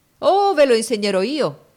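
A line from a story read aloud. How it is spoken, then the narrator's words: Exclaiming. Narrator (Italian): egli esclamò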